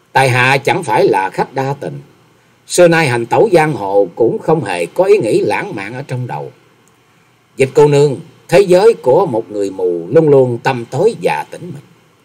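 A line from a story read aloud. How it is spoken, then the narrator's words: Slow, smiling. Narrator (Vietnamese): Nhậm Xương Bạch lại mỉm cười chậm rãi rồi nói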